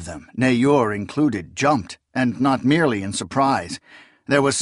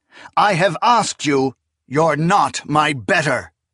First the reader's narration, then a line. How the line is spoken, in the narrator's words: Kellis thundered